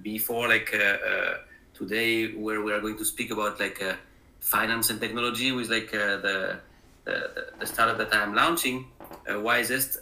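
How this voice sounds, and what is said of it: French accent. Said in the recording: “as you hear from my accent, it's not a Midwest accent. I am originally from France.”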